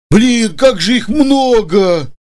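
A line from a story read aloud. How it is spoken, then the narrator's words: Dull, dejected voice. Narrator (Russian): потухшим голосом произнес Женя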